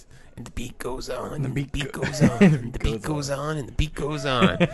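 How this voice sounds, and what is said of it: Randy Savage impression. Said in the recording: “My second favorite Randy Savage promo is... I'm trying to do the voice.”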